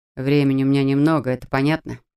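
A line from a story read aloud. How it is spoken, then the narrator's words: Grumbling. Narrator (Russian): пробурчал он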